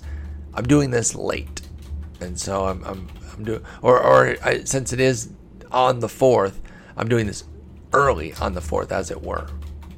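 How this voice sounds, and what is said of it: Scratchy, hoarse voice. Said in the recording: “my voice is getting scratchier”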